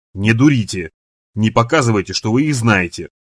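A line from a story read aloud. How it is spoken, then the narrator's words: Hiss. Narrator (Russian): прошипел он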